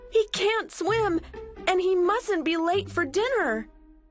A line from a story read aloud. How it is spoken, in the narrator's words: cried Millie and Molly